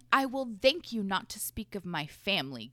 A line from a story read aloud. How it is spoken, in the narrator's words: Gabriel snarled